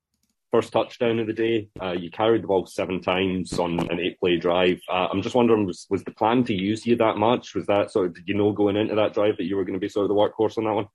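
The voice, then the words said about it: Scottish accent. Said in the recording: “sounds like he might not be from around these parts ... You got a little accent ... Scotland”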